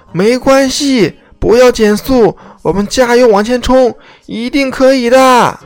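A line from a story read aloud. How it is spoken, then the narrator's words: Shout. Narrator (Chinese): 杰克在车厢里喊道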